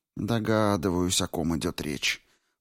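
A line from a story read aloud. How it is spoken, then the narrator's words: Whispering. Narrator (Russian): прошептала морфистка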